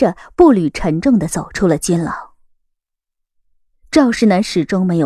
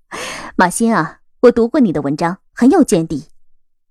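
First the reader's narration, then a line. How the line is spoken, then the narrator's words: Smiling. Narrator (Chinese): 笑着开口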